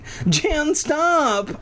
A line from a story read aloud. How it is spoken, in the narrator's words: I cried